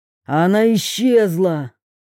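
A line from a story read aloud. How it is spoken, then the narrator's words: Bark. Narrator (Russian): рявкнул Федор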